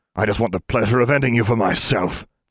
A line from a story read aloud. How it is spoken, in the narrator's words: Vegeta spat